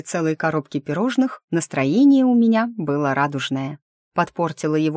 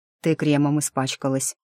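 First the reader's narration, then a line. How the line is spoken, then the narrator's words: Quiet explanation. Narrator (Russian): объяснил он негромко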